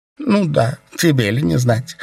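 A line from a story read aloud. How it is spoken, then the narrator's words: Chuckle. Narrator (Russian): хохотнул Миэлей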